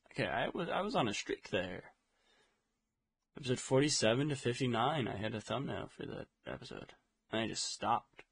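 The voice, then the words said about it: Strained, nearly lost voice. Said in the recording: “I also just can't speak anymore. My voice is gone.”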